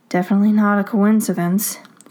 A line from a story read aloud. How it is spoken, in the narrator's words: Scott sighs